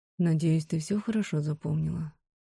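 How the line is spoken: Barely audible murmur. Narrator (Russian): произнес ворон так тихо, что я скорее прочитала слова по губам

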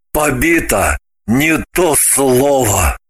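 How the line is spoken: Gloomy assurance. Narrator (Russian): Мрачно заверил Граблин

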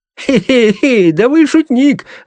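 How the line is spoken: Laughing. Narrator (Russian): рассмеялся инспектор

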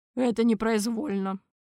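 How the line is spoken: Guilty mumble. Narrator (Russian): виновато пробурчал Торквемада

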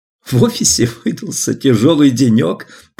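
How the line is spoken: Repeated, then laughing. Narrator (Russian): повторила Алиса и рассмеялась

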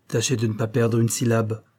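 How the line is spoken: Harsh. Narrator (French): ajouta-t-il durement

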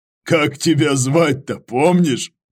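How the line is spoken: Question after laughing. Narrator (Russian): Просмеявшись, спросил Иваныч

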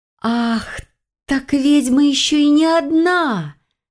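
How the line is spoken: Triumphant exclamation. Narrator (Russian): Победно воскликнула я

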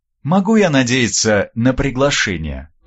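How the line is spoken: Polite formal inquiry. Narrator (Russian): поинтересовалась Вербицкая-старшая самым светским тоном

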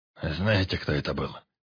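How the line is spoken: Hoarse. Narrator (Russian): хрипло спросил Баркас

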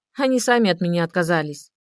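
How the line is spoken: Calm. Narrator (Russian): спокойно ответила Ольга

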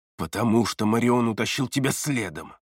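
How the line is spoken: Angry hiss. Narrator (Russian): Зло прошипел Эриас

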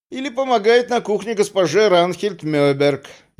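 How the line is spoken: Snide remark. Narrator (Russian): ехидно добавил доктор Нилерут

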